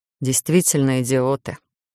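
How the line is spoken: Muffled grumble. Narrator (Russian): буркнул куда-то в волосы Гарон

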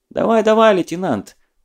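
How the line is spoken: Cheerful encouragement. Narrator (Russian): подбадрила она весело

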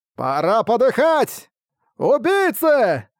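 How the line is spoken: Many voices yelling. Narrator (Russian): завопили сотрудники замка

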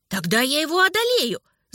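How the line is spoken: Shout. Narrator (Russian): закричал Альберт

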